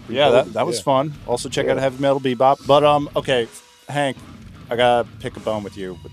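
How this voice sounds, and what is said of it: Hoarse, froggy voice. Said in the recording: “Vicks uh, cough drops is probably what you need sir. ... I'm quite yeah. frog right now.”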